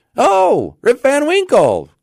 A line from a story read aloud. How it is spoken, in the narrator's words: cried two or three